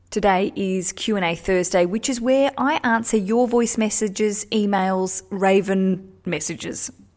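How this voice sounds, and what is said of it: Australian accent. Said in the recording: “We're Australians. Don't know if you can hear the accent or not. I feel like it's gotten a bit stronger since we've been home ... I'm a bloody Aussie. You gotta really rock that accent.”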